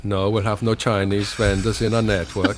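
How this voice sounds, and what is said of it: Put-on Swedish accent. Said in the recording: “How's that as a Swedish accent? ... It's pretty good. I like it.”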